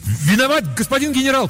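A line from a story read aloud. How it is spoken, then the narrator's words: Called after. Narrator (Russian): крикнул я вслед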